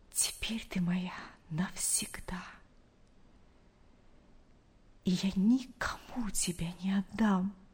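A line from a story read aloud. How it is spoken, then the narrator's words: Whisper. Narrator (Russian): прошептал он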